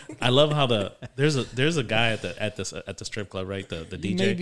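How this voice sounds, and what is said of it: Usual voice. Nothing is said of it.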